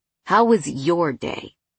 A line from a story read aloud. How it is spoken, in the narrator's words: he asked